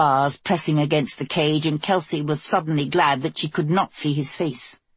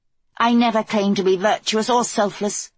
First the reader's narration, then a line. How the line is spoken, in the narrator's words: Kelsey snapped back